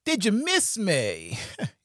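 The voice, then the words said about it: Imitates a sitcom character's voice. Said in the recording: “in my Varnell Hill voice”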